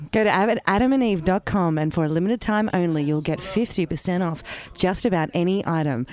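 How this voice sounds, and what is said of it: Sultry, seductive put-on voice. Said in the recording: “I was going to use my sexy voice... What's your sexy voice?”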